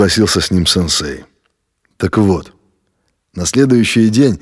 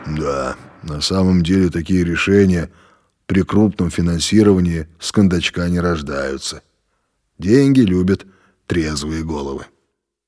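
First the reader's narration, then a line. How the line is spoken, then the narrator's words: Smirking deep bass. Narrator (Russian): Володя усмехнулся и пробасил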